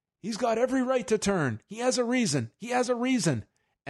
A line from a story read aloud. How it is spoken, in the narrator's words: one yelling